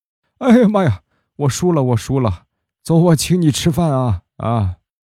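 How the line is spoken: Hoarse-voiced boy. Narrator (Chinese): 那个沙哑嗓子的男生就说话了

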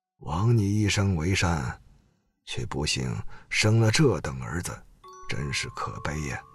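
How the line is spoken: Angry old man sighing. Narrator (Chinese): 瘦老汉气愤的…叹道

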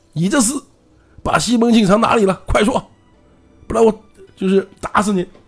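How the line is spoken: Angry. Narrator (Chinese): 怒从心里心里来

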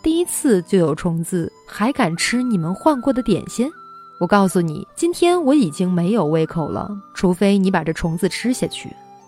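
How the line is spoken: Sneering. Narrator (Chinese): 他冷笑

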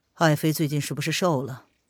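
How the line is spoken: Cool, indifferent. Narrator (Chinese): 叶轩寒淡淡的说道

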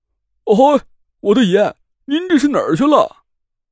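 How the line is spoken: Anxious, near tears. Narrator (Chinese): 急得都快哭出来了

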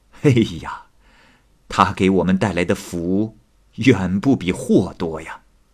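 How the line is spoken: Sighing. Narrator (Chinese): 邱家兄弟叹息说

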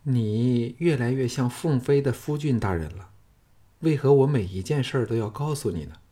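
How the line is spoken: Stunned, then sighing. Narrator (Chinese): 凤飞呆了片上，叹道

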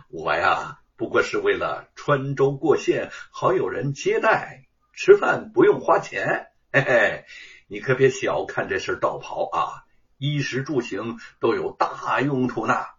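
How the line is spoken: Chuckling. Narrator (Chinese): 朱日藩呵呵一笑

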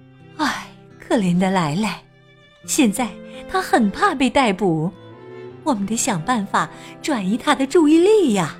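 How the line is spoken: Sighing. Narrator (Chinese): 普利姆太太叹息着说

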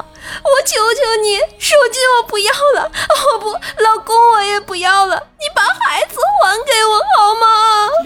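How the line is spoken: Frantic sobbing scream. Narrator (Chinese): 电话那头疯了，孩子他妈哭着大喊道

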